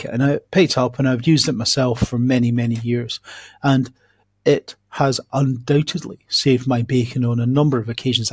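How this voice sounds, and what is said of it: Scottish accent, like Groundskeeper Willie. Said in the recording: “my accent sounds quite hostile to a lot of people, particularly if I'm a wee bit stressed. I sound like Groundkeeper Willie”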